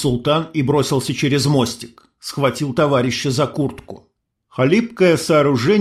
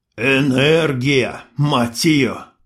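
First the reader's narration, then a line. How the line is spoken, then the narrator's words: Through gritted teeth. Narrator (Russian): процедил султан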